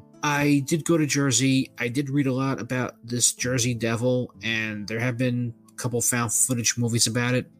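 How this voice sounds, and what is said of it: New York accent. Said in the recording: “I used to live in New York for a while, as you can tell by the accent.”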